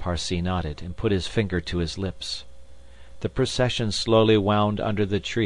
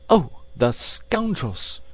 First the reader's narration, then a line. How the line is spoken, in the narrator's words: cried Passepartout, who could not repress his indignation